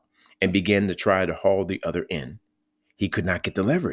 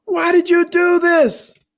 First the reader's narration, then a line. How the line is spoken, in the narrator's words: the man called out